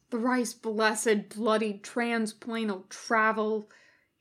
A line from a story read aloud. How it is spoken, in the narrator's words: he groaned